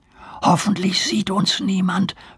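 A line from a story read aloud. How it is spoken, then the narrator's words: Worried whisper. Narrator (German): flüsterte Nemo besorgt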